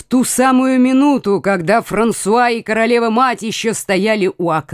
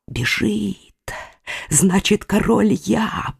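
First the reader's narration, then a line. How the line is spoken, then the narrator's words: Whispered. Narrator (Russian): прошептал герцог Алансонский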